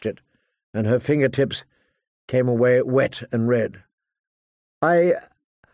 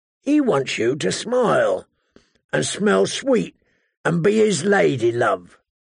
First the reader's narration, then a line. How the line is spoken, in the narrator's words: the hound rasped